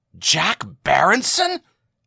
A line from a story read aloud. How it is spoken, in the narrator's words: said O'Brien excitedly